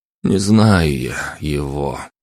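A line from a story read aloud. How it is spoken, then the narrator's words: Breathed out. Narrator (Russian): выдохнул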